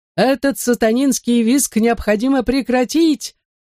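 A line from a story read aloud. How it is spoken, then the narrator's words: Preacher yelling to crowd. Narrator (Russian): орал преподобный Блессет, проповедник Свободной Баптистской Церкви, обращаясь к собравшейся толпе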